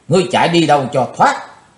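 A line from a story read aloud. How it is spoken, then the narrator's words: Loud shout. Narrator (Vietnamese): Chí Tôn hét to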